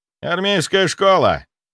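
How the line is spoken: Shouting. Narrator (Russian): крикнул Сергей

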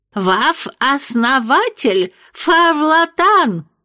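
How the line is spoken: Lisping. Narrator (Russian): прошепелявила Сара Пруденс

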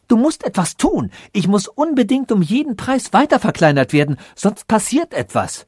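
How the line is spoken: Called out. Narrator (German): rief er ihm zu

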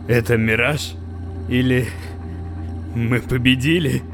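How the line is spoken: Tired smiling voice. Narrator (Russian): устало улыбнулся Джек

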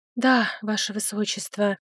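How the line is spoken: Humble whisper. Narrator (Russian): смиренно опустив глазки, прошептала красавица

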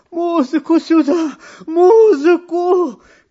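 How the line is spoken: Emperor shouting. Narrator (Russian): кричал император

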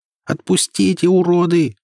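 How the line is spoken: Screamed. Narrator (Russian): закричала я

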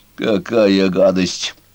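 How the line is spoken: Disgusted grumble. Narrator (Russian): бурчал он с отвращением

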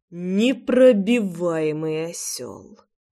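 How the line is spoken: Sigh. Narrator (Russian): вздохнул Прохор

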